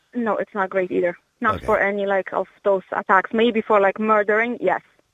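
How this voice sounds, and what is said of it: Polish accent. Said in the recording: “I detect, obviously, from your accent, you're not originally from Ireland ... I'm from Poland.”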